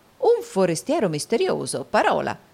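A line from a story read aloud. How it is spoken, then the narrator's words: Exclaimed. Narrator (Italian): esclamò il baronetto Mulberry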